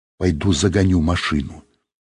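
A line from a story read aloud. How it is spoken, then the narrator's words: Quiet. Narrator (Russian): Сергей тихонько сказал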